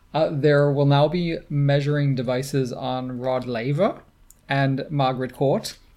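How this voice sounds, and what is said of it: Put-on Australian accent. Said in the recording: “the accent today ... The Australian mood.”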